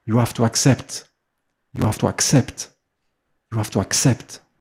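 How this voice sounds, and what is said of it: Mother Teresa accent impression. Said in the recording (French): “Avec son accent de Mère Teresa. Très, très forte”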